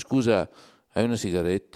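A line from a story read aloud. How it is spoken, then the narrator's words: Hoarse voice. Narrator (Italian): con la voce roca ti dice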